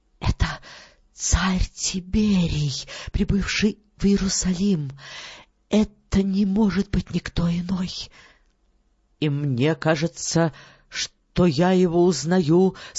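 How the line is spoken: Whispered. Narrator (Russian): Жена наместника шепнула своему мужу

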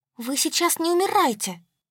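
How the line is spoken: Pleading. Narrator (Russian): взмолилась я

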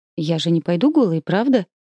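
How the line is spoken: Frightened whisper. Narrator (Russian): испуганно шепчу я

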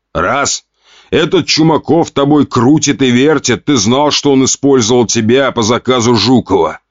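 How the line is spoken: Father's growl. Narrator (Russian): рыкнул отец

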